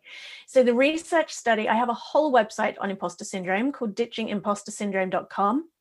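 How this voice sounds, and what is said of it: English accent. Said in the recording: “if you don't mind the English accent.”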